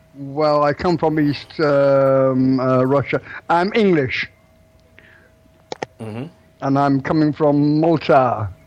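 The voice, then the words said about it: Speaks with a noticeable accent. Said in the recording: “We detect an accent.”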